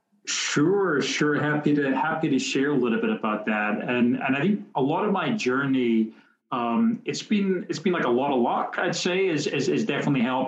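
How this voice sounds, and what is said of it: Scottish accent. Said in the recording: “your Scottish accent”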